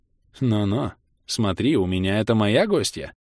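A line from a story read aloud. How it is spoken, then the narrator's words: Firm voice. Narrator (Russian): Твердым голосом произнес я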